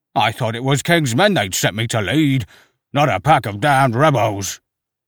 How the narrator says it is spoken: Slaughter snarled, spittle spotting his wax-encrusted buff coat

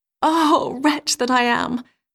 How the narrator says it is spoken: sighed she

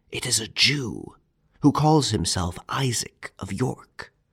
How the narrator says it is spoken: whispered into the ear of his master

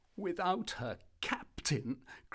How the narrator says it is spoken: cried Dantès, his eyes sparkling with animation

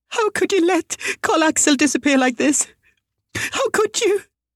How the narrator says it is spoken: Molly Altenius sobbed desperately

